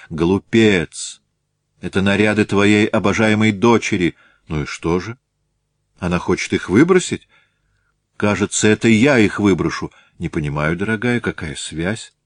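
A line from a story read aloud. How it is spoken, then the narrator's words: Calmer after deep sigh. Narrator (Russian): Ольга Михайловна сделала глубокий вздох и спросила более спокойно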